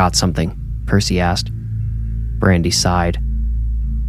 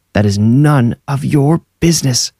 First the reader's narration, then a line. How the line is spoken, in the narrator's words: Susan screamed back